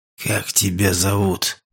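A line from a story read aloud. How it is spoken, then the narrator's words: Whisper. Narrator (Russian): прошептал человек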